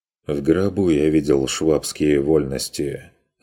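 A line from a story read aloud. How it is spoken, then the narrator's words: Curt, dry. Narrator (Russian): отрезал Курт сухо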